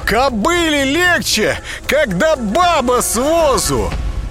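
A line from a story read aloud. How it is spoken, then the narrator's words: Yelling. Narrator (Russian): он заорал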